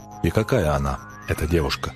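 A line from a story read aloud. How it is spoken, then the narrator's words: Plain. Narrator (Russian): спросил я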